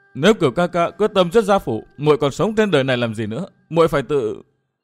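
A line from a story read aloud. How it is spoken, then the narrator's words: Sobbing. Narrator (Vietnamese): Anh Thư nức nở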